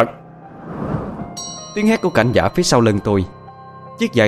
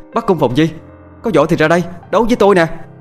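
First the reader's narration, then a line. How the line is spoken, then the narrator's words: Courageous shout. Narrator (Vietnamese): Tôi hít một hơi dài, lấy can đảm, rồi hét lên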